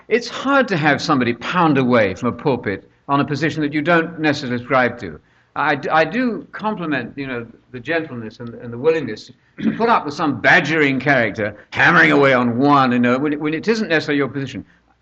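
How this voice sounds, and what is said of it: British speaker with Georgia accent. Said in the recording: “this harsh Brit with a Georgia accent”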